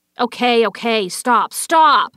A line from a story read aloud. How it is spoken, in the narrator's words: shouted the unscarred man